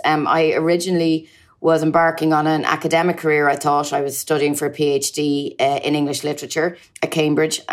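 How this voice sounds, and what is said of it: Irish accent. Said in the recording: “You may tell from my accent that I hail from Ireland.”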